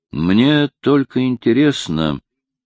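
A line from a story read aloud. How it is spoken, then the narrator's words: Uncertain. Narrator (Russian): неуверенно проговорил он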